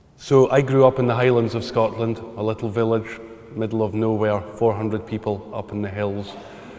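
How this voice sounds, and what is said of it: Scottish accent. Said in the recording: “the Scottish accent”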